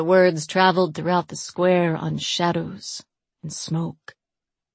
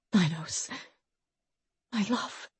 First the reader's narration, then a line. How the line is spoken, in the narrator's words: Carina whispered